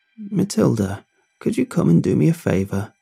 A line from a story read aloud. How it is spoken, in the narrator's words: Bobby croaked from upstairs